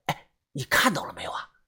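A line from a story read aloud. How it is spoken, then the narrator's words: Breathless hurried question. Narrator (Chinese): 他大口大口的喘着气，忙问豆芽仔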